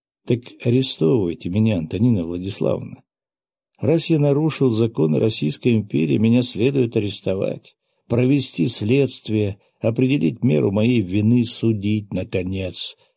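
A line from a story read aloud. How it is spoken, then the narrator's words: Completely calm. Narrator (Russian): произнес я совершенно спокойным голосом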